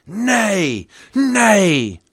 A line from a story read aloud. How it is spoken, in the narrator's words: roared back the crowd